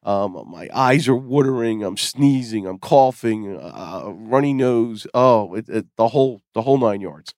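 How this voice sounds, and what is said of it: Hoarse voice from a cold. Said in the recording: “I've picked up a cold ... I'm suffering, as you can probably hear. I'm losing my voice.”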